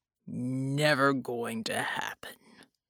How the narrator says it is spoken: Bulwark growled

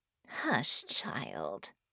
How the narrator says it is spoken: Harmony hissed

